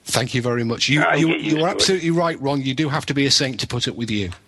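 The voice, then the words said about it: Pleasant foreign accent. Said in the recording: “I like your accent. It's very pleasant.”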